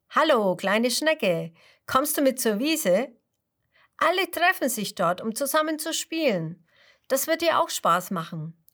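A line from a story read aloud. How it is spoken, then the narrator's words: Calling out. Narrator (German): ruft Mr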